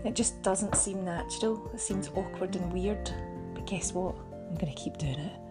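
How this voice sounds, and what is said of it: Scottish accent, fast speech. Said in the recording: “having a Scottish accent and speaking the way I speak ... I talk way too fast”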